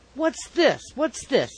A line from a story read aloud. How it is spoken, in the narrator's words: exclaimed Mr